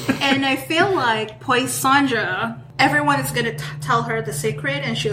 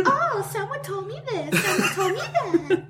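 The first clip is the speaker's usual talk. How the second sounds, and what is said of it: Character voice. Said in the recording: “do that voice ... whenever you're discussing Poisandra”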